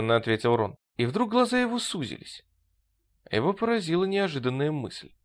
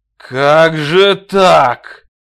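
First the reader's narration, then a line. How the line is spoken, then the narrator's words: Growled. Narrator (Russian): зарычал Роэрк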